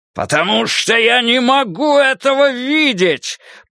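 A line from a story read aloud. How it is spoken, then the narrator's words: Roar. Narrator (Russian): Проревел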